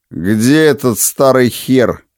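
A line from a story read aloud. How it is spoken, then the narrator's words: Lazy question. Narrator (Russian): лениво спросил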